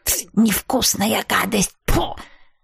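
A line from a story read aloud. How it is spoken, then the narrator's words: Curious mutter. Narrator (Russian): бормотала с интересом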